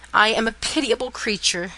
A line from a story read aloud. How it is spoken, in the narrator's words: she said